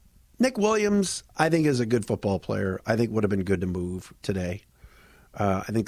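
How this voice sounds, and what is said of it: Usual voice. Nothing is said of it.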